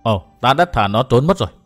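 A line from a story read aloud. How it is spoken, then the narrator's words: Muttering. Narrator (Vietnamese): Bạch Y thần nữ mới lẩm bẩm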